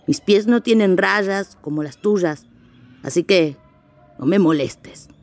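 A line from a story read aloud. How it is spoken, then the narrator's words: Growling walrus. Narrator (Spanish): gruñó la señora morsa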